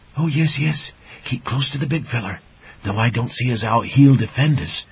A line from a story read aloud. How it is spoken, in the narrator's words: Burble whispered to Dippler